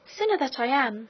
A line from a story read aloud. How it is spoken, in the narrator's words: exclaimed Maritornes